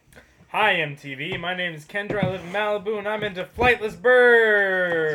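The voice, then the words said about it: Put-on Valley girl accent. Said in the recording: “Valley girl accent.”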